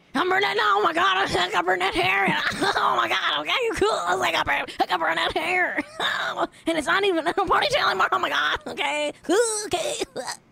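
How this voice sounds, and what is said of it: Strained imitation of another person's voice. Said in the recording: “That's my Jojo C impression. ... That's not great for my voice. I'm going to blow my vocal cords doing that.”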